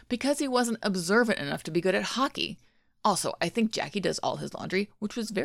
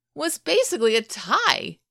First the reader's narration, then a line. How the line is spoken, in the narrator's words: Shane cried out